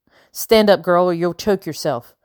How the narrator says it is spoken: growled the man

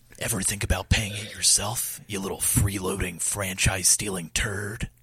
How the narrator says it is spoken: Snake says under his breath

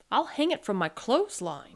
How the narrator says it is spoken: he said

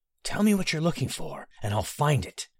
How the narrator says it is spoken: Barry whispered urgently

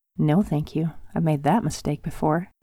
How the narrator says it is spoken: muttered softly, hoping that he wouldn't hear

